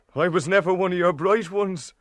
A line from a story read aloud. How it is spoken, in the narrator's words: he added with a half laugh